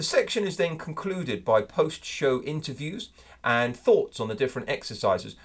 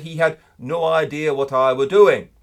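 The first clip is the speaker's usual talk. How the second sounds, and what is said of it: Put-on northern English accent. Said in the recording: “my attempt at a northern accent”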